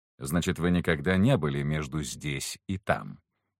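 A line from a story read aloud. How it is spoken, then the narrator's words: Cold, smiling. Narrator (Russian): холодно улыбнулся Алистер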